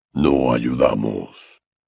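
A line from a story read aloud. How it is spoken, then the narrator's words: Hoarse declaration. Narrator (Spanish): declaró con una voz ronca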